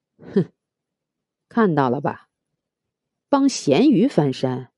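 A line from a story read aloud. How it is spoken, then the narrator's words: Cold sneering laugh. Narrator (Chinese): 冷冷的笑了一声，说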